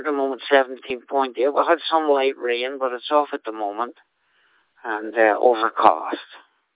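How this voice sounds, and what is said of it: Irish accent. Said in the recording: “That accent of yours is not from Scotland. The Emerald Isle somewhere, I would bet.”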